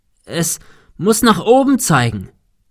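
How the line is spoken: Shouting into wind. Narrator (German): rief Thomas dem Wind entgegen

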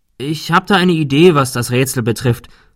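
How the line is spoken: Plain. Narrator (German): sagte Thomas noch

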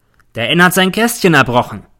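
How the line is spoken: Sergeant calling out. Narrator (German): ruft mir der Feldwebel zu

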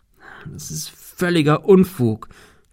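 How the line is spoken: Stammering. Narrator (German): stammelte er

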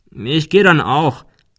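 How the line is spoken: Called farewell into office. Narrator (German): rief er zum Abschied in das Büro hinein

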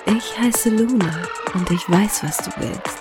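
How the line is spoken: Seductive whisper. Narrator (German): hauchte sie ihm verführerisch ins Ohr

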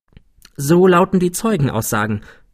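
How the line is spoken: Plain. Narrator (German): sagte Dupin

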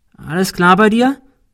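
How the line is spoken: Calling out. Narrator (German): rief Cecil

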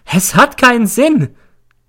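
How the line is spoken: Shrieking. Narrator (German): Dann kreischt sie

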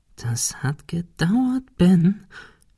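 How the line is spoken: Whispering to himself. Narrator (German): flüsterte er sich selbst zu

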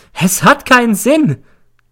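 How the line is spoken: Shrieking. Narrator (German): kreischt sie

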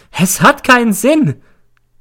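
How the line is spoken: Shriek. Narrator (German): kreischt sie

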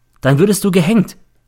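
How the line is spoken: Plain. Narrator (German): sagte

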